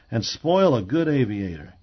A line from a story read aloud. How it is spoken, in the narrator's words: growled Parks, but playfully